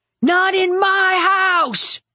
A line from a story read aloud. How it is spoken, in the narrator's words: Luther roared